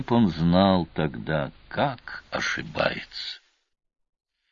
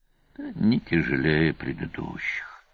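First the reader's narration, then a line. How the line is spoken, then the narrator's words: Sigh. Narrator (Russian): вздохнул Сварог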